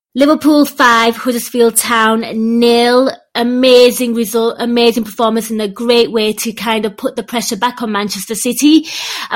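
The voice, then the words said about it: Slightly nasal, unwell-sounding voice. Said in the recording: “if I sound a little nasal. I'm not well”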